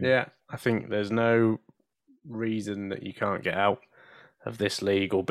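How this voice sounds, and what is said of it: Usual voice. Nothing is said of it.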